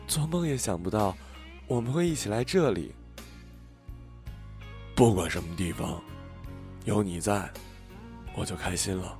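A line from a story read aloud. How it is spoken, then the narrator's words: Murmuring. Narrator (Chinese): 在人来人往的米兰马尔彭萨机场，小五喃喃地说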